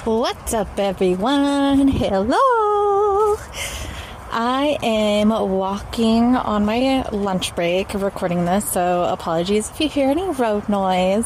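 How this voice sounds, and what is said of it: Speaks with a noticeable accent. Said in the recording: “That's an accent.”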